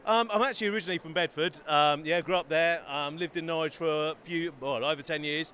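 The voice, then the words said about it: Slight local London English accent. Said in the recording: “you sound like you've got a bit of a local accent here, mate.”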